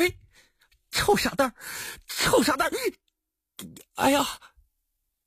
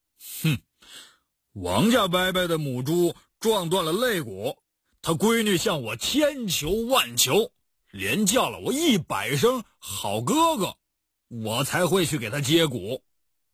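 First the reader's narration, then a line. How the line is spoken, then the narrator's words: Cold. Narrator (Chinese): 他冷冷地说道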